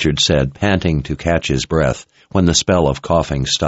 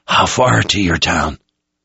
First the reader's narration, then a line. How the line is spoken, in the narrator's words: His voice was getting hoarse